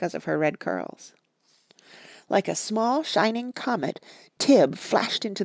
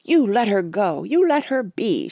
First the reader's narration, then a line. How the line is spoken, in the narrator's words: she cried